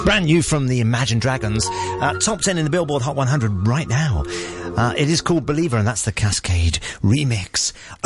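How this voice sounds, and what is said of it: Smooth radio presenter voice. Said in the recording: “that's lovely radio voice there ... the radio voice”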